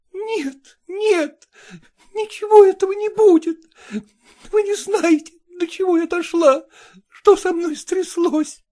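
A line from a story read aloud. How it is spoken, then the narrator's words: Sobbing. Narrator (Russian): отвечала, всхлипывая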